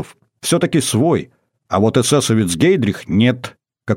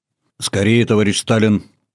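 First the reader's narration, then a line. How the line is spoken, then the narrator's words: Plain. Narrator (Russian): ответил российский посол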